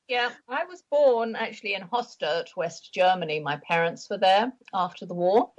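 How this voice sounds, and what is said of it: Lovely accent. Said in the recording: “you have such a lovely accent”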